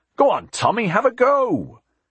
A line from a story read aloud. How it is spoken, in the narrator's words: Jack called out